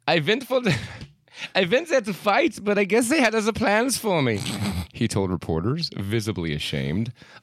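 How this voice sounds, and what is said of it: Put-on German accent. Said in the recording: “Is that a German accent? ... why aren't you saying this in a German accent?”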